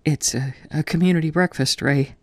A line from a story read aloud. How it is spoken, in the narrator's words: Ben gasps